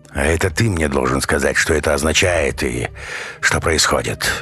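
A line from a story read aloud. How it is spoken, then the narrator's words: Gruff teacher's grunt. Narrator (Russian): буркнул учитель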